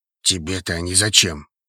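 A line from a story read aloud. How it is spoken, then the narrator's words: Muttered under breath. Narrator (Russian): буркнул себе под нос Хейвуд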